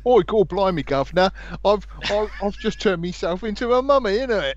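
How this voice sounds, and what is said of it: Exaggerated British accent, Moon Knight. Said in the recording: “Oscar Isaac is not going to get away with his old Moon Knight accent.”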